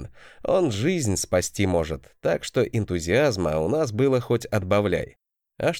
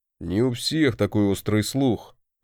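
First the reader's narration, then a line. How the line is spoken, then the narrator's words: Grumbling. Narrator (Russian): проворчал мой молотоголовый родственник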